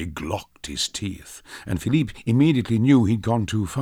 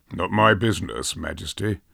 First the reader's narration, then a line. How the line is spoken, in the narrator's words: muttered